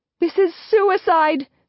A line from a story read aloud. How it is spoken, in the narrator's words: Sarah yells in my ear